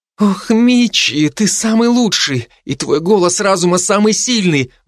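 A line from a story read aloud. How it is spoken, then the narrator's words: Exclaiming. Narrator (Russian): воскликнула Мидори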